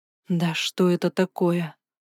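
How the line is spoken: Mutter. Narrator (Russian): пробормотала

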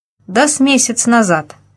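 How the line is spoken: Plain. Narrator (Russian): сказал один

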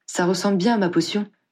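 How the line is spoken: Exclaimed. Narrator (French): s'exclama-t-elle

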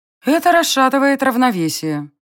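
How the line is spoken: Gloomy reply, goddess. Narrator (Russian): мрачно отозвалась богиня

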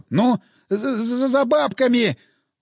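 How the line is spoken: Stammering. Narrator (Russian): Он уже заикаться начал

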